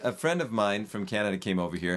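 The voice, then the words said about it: Dramatic storytelling voice. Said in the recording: “I'm using my dramatic voice.”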